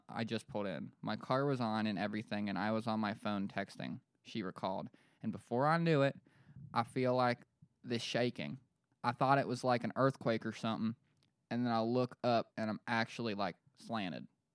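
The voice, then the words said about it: Put-on Western Pennsylvania accent. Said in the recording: “that's not like a Pennsylvanian accent, but in Lancaster, that's probably kind of spot on ... I was just doing that to just be Western PA.”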